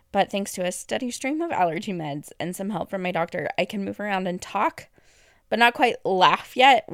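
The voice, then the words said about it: Rough, less than stellar voice. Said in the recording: “I've had an intense cough caused by those allergies, and it's been majorly agitated whenever I try to talk ... I still cough occasionally, and you can probably tell my voice sounds less than stellar”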